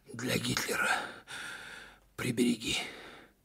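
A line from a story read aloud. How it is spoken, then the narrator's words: Strained exhale, battalion commander. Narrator (Russian): через силу выдохнул комбат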